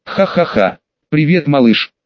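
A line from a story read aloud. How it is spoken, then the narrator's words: Laughing. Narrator (Russian): Смеялся я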